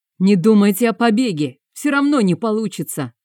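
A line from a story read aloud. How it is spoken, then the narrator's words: Shouted. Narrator (Russian): крикнул Дарывуд им вслед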